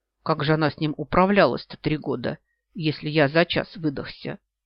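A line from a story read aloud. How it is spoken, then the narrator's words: Muttering to himself. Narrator (Russian): бормочет он себе под нос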